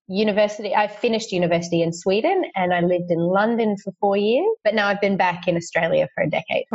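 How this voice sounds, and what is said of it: Soft Australian accent. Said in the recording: “your Australian accent is not as strong as most Australians ... you have like a soft Australian accent”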